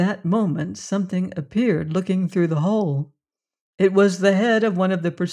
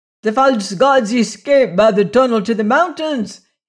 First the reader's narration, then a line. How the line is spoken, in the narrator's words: he screamed